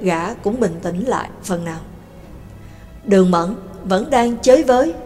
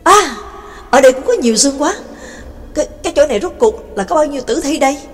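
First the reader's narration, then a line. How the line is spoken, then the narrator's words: Startled exclamation. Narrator (Vietnamese): Trường Lập thốt lên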